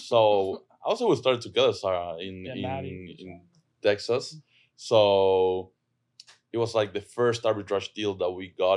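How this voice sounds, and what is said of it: Argentine accent. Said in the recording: “I'm from Argentina. That's where my accent is from.”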